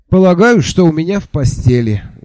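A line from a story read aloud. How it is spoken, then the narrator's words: Sigh. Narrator (Russian): вздохнул я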